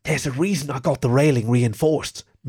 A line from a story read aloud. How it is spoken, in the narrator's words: Marilyn whispered, leaning over to Wendy